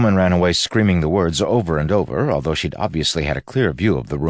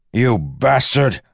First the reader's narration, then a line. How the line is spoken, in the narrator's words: Wax shouted toward the box